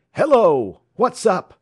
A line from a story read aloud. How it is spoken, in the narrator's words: placing his hands to his mouth, he cried